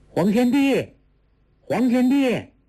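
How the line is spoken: Loud shout. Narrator (Chinese): 放声大叫

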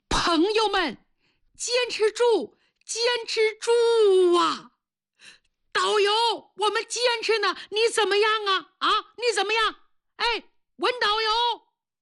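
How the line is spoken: Loud shout. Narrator (Chinese): 他昏死过多次，可是每当他一醒，就要大声地喊

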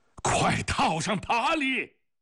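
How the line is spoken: Roaring. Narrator (Chinese): 吼声

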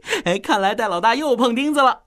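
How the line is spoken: Gloating laugh. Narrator (Chinese): 奥斯卡幸灾乐祸地笑道

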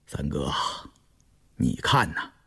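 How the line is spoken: Musing soft voice. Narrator (Chinese): 胤禛沉吟着，偏过脸轻声道

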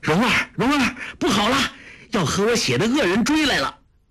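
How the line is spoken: Loud shout. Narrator (Chinese): 郭靖大声叫道

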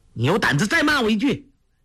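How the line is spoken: Angry shout. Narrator (Chinese): 黄蓉从来不肯吃半点小亏，听他破口乱骂，怒从心起，叫道

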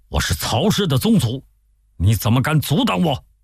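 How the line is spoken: Furious. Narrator (Chinese): 曹仁大怒说

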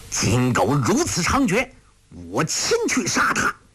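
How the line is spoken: Furious shout. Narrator (Chinese): 陆冠英大怒喝道

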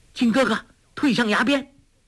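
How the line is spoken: Calling out. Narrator (Chinese): 黄蓉心念一动，叫道

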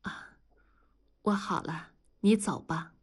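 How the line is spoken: Soft. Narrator (Chinese): 李天骄轻声地说

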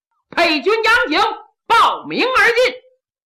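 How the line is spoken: Shout from inside. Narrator (Chinese): 里边有人喊

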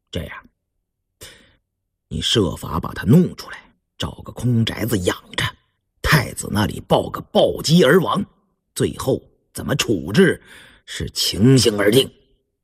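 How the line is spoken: Cold. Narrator (Chinese): 胤禛冷冷地说

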